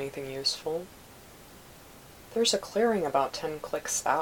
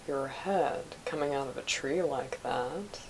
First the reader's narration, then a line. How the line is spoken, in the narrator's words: Obi-Wan drawled back